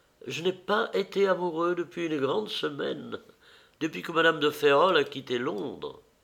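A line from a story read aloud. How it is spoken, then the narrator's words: Smiling murmur. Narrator (French): murmura Dorian en souriant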